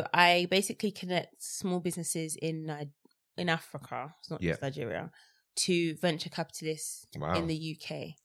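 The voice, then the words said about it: British accent. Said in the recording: “coming there with a British accent”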